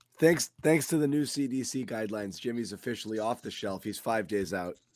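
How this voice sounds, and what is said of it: Sounds unwell, worn-down voice. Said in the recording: “We're a banged up crew. You could probably hear it in my voice.”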